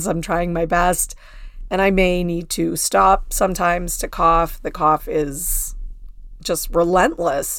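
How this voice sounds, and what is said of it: Scratchy, hoarse voice. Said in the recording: “my voice is obviously not amazing... this is not normally what I sound like... my voice is a little scratchy”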